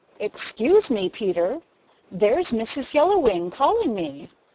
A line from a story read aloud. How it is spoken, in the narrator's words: exclaimed Yellowwing